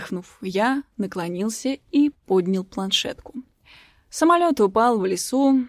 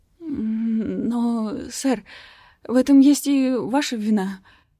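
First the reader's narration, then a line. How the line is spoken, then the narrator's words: Awkward stammering mutter. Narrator (Russian): запинаясь, неловко пробормотал парень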